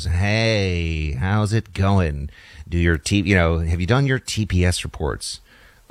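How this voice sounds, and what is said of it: Imitates a movie character's voice. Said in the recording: “my impression's not as good as it would normally be”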